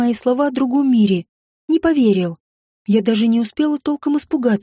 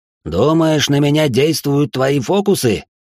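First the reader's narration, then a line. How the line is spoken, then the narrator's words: Growling. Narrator (Russian): рыкнул он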